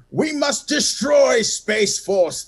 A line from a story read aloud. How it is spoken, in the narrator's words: thundered Washington